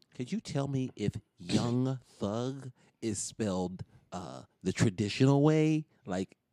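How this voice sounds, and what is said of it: Put-on white-sounding voice. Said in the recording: “putting on my white voice”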